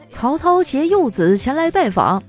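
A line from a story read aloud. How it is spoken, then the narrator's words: Loud call. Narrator (Chinese): 曹操大声的喊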